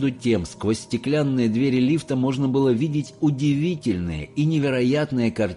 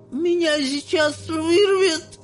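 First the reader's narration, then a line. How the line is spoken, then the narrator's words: Nauseated wailing. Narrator (Russian): Вся позеленев завопила миссис Телик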